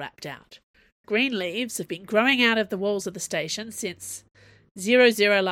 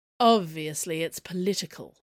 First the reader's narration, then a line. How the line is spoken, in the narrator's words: Athos said in the posh drawl